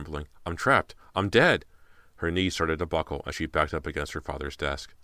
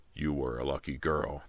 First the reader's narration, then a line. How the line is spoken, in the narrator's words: the man said in a low voice